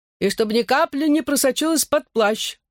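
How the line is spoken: Muffled shout. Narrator (Russian): глухо прокричал из глубин дождевика гус

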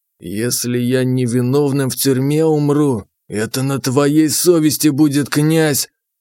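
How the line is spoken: Hissed. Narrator (Russian): прошипел он

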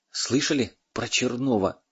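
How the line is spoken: Quiet question. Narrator (Russian): тихо спросил переводчик

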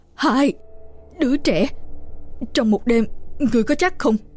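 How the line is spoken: Trembling voice. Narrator (Vietnamese): Ông run run nói

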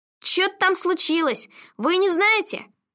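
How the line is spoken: Loud question. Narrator (Russian): громко спросил водитель

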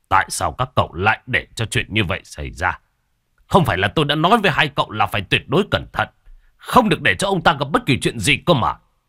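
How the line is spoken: Stern, gritted voice. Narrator (Vietnamese): Ông gằn giọng

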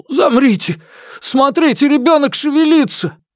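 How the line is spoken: Sudden cry. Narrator (Russian): Дабао неожиданно вскрикнул

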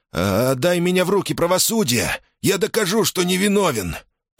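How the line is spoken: Trembling voice. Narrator (Russian): произнес Ферк дрожащим голосом

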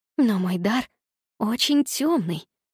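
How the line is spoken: Conspiratorial whisper. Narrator (Russian): заговорщически прошептала она

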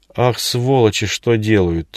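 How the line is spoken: Strained, forced-out words. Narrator (Russian): только и смог выдавить из себя майор

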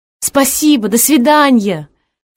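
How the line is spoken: Shouted after someone. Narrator (Russian): крикнула я в спину стремительной фигуре

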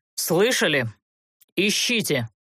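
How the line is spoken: Ordered through clenched teeth. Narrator (Russian): приказал Олтерн сквозь зубы

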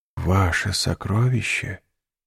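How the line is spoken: Whispered. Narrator (Russian): прошептал Дантес

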